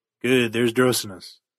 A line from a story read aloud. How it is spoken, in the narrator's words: muttered Johnner